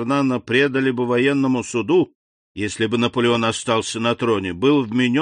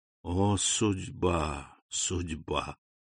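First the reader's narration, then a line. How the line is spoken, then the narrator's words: Abbot's whisper. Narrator (Russian): прошептал аббат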